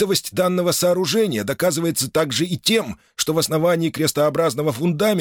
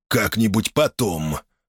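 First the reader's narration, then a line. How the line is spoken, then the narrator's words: Hoarse repetition. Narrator (Russian): хрипло повторил Гамалей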